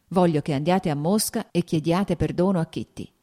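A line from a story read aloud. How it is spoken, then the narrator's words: Plain. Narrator (Italian): disse lei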